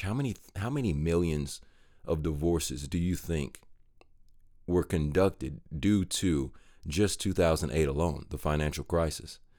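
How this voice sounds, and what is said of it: Stuttering, excited speech. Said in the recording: “I know I'm stuttering. That's because I'm really excited about this topic”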